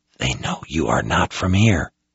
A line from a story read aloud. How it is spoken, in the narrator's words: Anson whispered